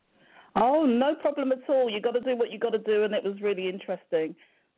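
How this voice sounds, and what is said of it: British accent. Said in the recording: “my UK friend, my UK friend. ... It's the accent. I love the accent”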